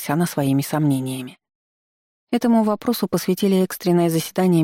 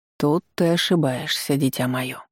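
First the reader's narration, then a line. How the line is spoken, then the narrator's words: Gentle correction, monk. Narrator (Russian): мягко поправил ее монах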